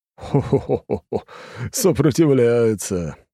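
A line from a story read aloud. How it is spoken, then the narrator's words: Laughing. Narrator (Russian): смеялся блондин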